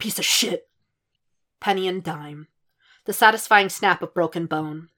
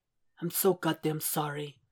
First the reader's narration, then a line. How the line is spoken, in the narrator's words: he whispers